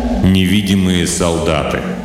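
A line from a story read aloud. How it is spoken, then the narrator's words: Joyless snort. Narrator (Russian): Болл невесело хмыкнул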